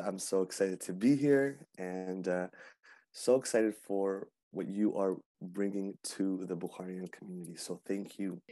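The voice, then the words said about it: Hoarse, slightly rough voice. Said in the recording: “A little bit under the weather, so my voice is a bit more hoarse right now, but a bit more smoldering”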